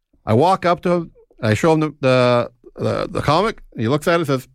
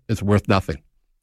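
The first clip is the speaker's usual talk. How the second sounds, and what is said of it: Imitates another person's voice. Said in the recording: “my impression of Paul”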